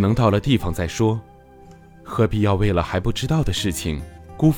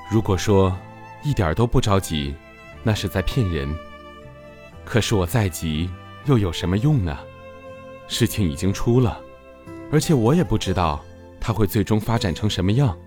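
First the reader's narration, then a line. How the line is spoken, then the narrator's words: Calm, faintly smiling. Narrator (Chinese): 中年人微微一笑，淡淡的回答道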